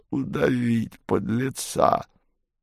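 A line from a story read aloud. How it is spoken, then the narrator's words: Angry astonished exclamation. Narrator (Russian): в гневном изумлении воскликнула левая голова двуглавого Юла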